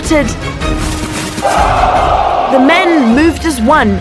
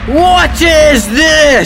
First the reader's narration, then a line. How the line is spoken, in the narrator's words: He shouted over the crowd